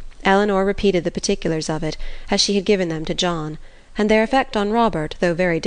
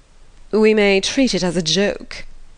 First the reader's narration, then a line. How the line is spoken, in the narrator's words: said he at last, recovering from the affected laugh